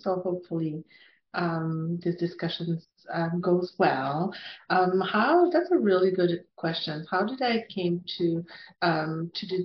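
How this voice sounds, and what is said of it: Strong Quebec French accent. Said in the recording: “I'm from um, Quebec City, hence that big uh, accent.”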